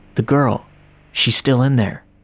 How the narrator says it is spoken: a voice angrily whispered

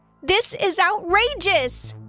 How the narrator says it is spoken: I yelled out

